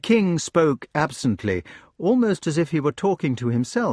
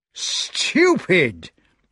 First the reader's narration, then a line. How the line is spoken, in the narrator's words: cried the magician, triumphant once again, for he was in high delight over his discovery about capital